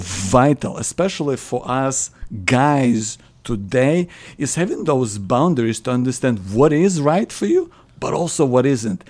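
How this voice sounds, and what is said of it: Non-Australian foreign accent. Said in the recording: “from your accent, uh, people can tell that you're not. Um, um, Australian born as such”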